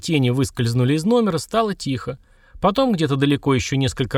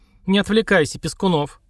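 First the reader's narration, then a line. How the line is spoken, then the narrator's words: Stern shout, hard woman. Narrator (Russian): сурово прикрикнул прокурорская, дама лет 40, жесткая, как гранитная скала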